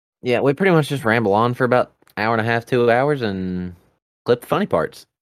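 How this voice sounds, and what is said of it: Rural Southern American accent. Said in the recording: “my redneck accent ... his redneck accent”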